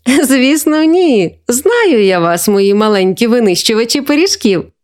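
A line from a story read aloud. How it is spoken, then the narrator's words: Grandmother laughing. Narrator (Ukrainian): засміялася бабуся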